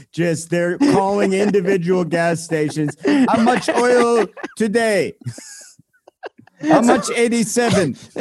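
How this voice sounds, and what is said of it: Put-on foreign accent. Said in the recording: “That's a good accent.”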